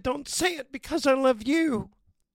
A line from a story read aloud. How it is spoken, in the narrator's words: she cried